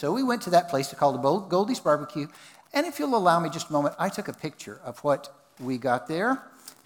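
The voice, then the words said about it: Texan accent. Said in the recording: “I was in Texas, which is where I'm originally from. You can probably pick that up with my accent”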